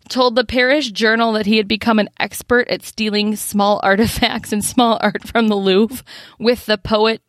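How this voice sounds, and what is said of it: American Midwestern accent. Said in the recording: “it gets your Midwest on there with that name ... this Midwest accent.”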